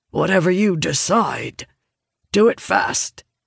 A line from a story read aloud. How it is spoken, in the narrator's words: Vargas grunts nearby